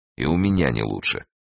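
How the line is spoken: Gloomy. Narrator (Russian): мрачно сказал Эраст Петрович

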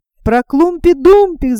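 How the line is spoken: Several voices shouting. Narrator (Russian): закричали другие

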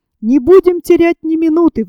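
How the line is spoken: Exclaiming. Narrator (Russian): воскликнул инженер

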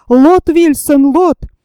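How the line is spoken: Shout. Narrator (Russian): Джон крикнул

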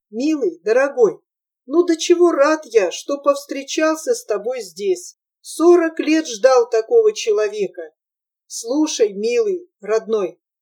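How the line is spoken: Agitated voice softened, affectionate. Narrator (Russian): стараясь смягчить свой взволнованный голос, сказал Протасову ласково

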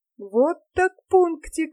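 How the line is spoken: Exclamation. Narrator (Russian): воскликнул Джемми

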